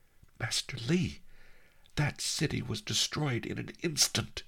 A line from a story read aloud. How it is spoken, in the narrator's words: I gasped